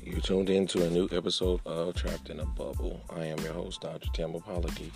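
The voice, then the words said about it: Slightly altered, recovering voice. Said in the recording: “I'm just now getting my voice back somewhat. So my voice sounds a little different on today ... I am in the process of regaining my voice”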